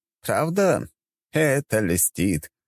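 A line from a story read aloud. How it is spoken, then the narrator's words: Old man's chuckle. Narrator (Russian): хохотнул старик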